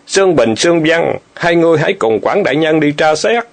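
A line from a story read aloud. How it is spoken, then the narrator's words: Loud shout. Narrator (Vietnamese): quát lớn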